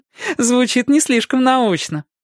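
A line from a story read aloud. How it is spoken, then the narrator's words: Laughing. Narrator (Russian): рассмеялась Кэти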